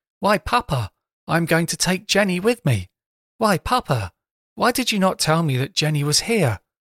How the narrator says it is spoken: suddenly, with every appearance of surprise, she exclaimed

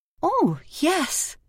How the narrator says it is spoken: exclaimed in surprise

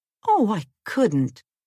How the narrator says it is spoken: cried Jane

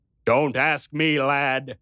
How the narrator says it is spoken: he shouted back

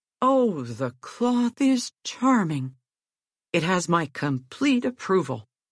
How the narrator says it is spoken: exclaimed

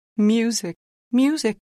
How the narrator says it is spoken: cried

